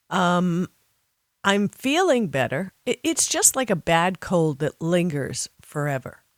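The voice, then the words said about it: Voice sounds ill, like a cold. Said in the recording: “I'm still recovering from COVID, as you probably can hear in my voice”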